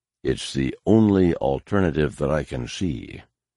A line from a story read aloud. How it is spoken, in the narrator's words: Pelion said softly